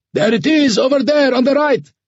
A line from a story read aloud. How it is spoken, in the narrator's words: yelled Ahmed